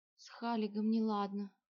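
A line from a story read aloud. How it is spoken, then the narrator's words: Muffled, hollow reply. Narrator (Russian): глухо ответила она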